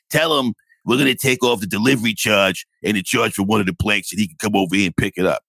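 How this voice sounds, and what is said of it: Put-on accent imitating another person. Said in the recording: “this is the accent, like, because his name is Tony Polanco, so in my head, he's probably something.”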